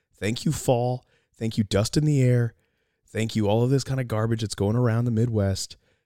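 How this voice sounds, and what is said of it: Hoarse, losing their voice. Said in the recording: “it's not fun to listen to someone who's losing their voice ... why does it sound like that? ... losing my voice.”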